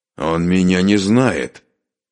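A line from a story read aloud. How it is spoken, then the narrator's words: Spiteful, through teeth. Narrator (Russian): злобно процедил обладатель пистолета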